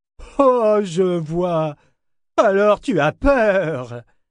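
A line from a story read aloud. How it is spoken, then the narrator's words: Sneered nastily. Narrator (French): ricana-t-il méchamment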